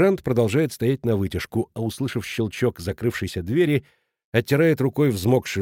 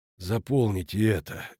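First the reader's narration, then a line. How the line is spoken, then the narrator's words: Tired. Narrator (Russian): говорит он устало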